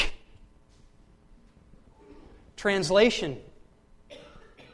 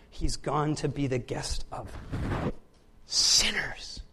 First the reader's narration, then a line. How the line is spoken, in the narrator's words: All the people began to mutter